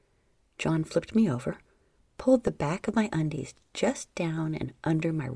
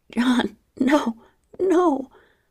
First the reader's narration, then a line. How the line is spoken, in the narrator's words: I pleaded, though we both knew I truly didn't mean it